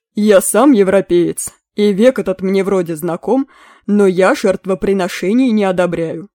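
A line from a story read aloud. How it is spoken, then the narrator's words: Stern. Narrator (Russian): строго сказал Мерлин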